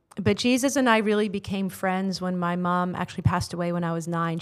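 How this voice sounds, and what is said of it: American accent. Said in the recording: “you can probably tell from my accent I'm not Kiwi. ... born and raised in the states”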